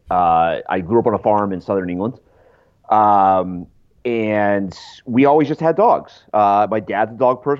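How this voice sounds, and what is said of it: Thick English accent. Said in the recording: “my very thick English accent”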